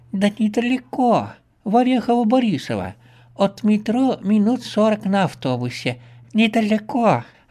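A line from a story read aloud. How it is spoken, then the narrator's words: Joyful old woman. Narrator (Russian): радостно сообщает бабка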